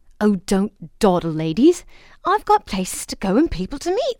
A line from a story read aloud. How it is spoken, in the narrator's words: said the fairy impatiently